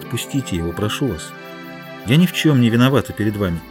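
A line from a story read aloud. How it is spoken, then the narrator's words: Tender. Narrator (Russian): Гутьерре ласково сказала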